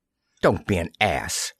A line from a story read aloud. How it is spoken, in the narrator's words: Mayer snapped